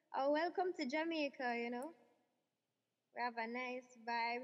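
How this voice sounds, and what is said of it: Jamaican Patois accent. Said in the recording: “How would you talk in accent ... How would you say that right now in Patois? ... In Patois.”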